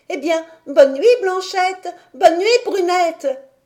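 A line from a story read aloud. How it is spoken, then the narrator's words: Shouting at full strength. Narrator (French): cria Heidi de toutes ses forces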